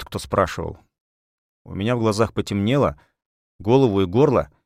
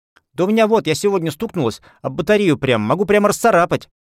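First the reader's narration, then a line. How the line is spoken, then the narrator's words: Little girl speaking hurriedly. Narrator (Russian): торопливо заговорила мелкая девчонка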